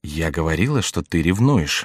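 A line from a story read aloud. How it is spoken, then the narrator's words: Whisper in the ear. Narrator (Russian): шепнула Екатерина на ухо своей дочери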